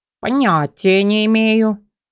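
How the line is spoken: Gloomy reply. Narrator (Russian): мрачно ответил Фьор

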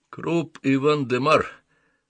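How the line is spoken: Plain. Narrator (Russian): сказал маркиз

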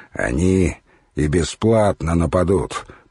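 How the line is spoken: Grumbling. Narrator (Russian): проворчал Икмор

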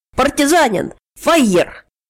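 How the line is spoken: Half-shouted, half-whispered. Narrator (Russian): Старков тоже полувыкрикнул, полушепнул

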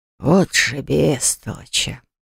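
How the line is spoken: Barely audible sigh. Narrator (Russian): вздохнул где-то на грани слышимости Грег

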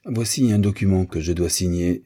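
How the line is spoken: Plain. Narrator (French): dit Mr

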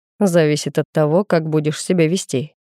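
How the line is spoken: Snorting grunt. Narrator (Russian): хмыкнул Александр

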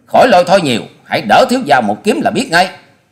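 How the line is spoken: Loud scolding shout. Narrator (Vietnamese): Hoa Sĩ Kiệt nạt to

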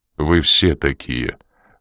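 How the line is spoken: Cold reply. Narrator (Russian): холодным тоном ответил Коридон

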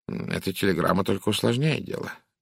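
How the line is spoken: Muttering. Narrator (Russian): пробормотал он

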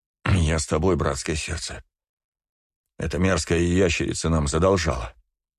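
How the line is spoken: Tearful mutter. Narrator (Russian): буркнул все еще душащий слезы Джон

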